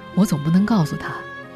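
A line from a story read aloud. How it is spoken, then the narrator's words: Sighing. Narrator (Chinese): 这位领导叹了口气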